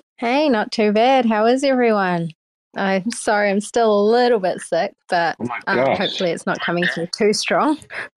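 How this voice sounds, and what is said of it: New Zealand accent. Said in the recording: “I've got a New Zealand accent.”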